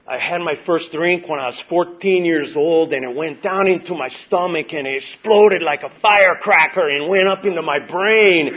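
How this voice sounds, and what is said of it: Imitated Hispanic woman's accent. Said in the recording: “she's a middle-aged Hispanic lady ... I don't know if I can do the accent”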